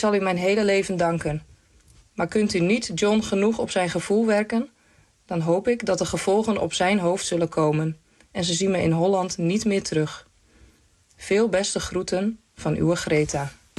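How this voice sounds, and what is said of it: Dutch with Frisian accent. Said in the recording (Dutch): “mooi is dat je bij maar het Friese wel er doorheen hoort”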